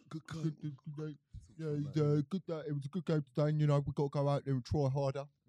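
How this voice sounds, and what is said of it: Put-on Nigerian accent drifting Indian. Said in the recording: “That's a bit of Roy Hodgson as well ... my Nigerian accent is actually pretty decent ... It went Indian at the end there.”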